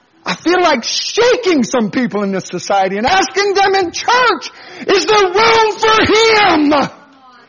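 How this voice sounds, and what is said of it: Yelling preacher. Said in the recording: “why are you yelling?”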